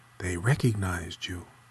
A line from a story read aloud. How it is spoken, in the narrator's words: She whispered to him